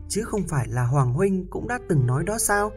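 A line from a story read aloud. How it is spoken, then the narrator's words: Smiling. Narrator (Vietnamese): Chú ăn mày mỉm cười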